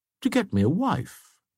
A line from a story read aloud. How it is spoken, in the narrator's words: answered Bracy coolly